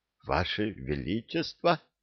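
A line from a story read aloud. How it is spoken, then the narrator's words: Confused mutter. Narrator (Russian): растерянно пробормотал архивариус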